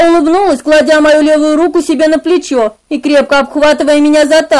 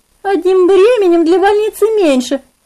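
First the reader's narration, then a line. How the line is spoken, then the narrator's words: Ringing laughter. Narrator (Russian): Звонко смеялась Клодия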